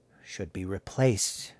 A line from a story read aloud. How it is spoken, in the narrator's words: he muttered